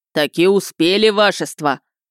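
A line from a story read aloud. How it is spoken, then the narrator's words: Booming bass voice. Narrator (Russian): Басом протрубил стюард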